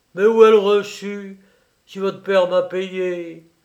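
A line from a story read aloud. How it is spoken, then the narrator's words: Exclaiming. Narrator (French): s'écria Clapier qui se décida à faire tête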